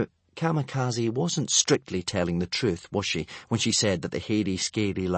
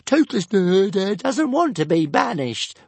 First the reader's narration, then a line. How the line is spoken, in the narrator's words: wailed Toothless